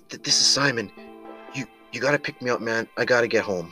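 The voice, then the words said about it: Overwhelmed, panicked voice. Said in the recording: “in this clearly overwhelmed voice”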